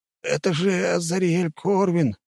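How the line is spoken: Forced out strained. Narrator (Russian): выдавил из себя один из стражников

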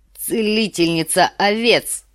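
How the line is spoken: Snorted. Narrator (Russian): фыркнул Квота

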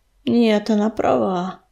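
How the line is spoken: Sigh. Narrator (Russian): вздохнул огнезвезд

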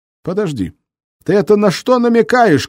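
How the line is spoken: Shouting after someone. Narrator (Russian): крикнул ему вслед Волин

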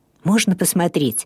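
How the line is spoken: Curious whisper. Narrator (Russian): с любопытством прошептал Гуннар

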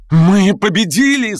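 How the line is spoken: Shouting. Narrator (Russian): закричал он

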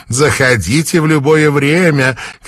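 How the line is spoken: Shouted. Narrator (Russian): крикнула мама Сан

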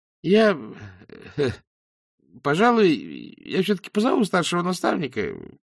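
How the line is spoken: Uncertain speech. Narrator (Russian): неуверенно произнес убийца

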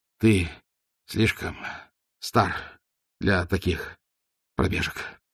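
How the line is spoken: Strained, forced out. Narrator (Russian): выдавил Ваймс

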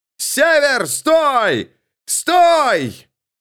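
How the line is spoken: Shouting at top voice. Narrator (Russian): Эрвин закричал во все горло

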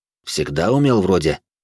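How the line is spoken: Grumbled. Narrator (Russian): проворчал я

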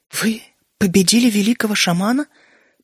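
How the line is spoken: Almost whispering. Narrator (Russian): почти шепотом произнесла Дриада

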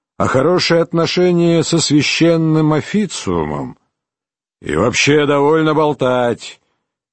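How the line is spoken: Grumbling. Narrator (Russian): проворчал Чирне

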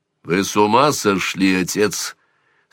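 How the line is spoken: Almost rude question. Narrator (Russian): спросил Сварог почти грубо

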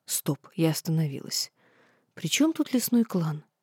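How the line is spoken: Innocent tone. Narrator (Russian): так невинно произнес

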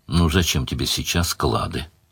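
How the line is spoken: Gentle question. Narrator (Russian): ласково спросила Мара

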